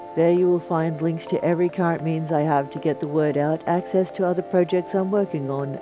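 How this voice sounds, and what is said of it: Semi-Australian accent. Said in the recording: “the melodious sound of my voice ... rendered in a semi-Australian accent”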